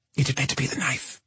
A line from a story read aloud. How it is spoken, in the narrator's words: she whispered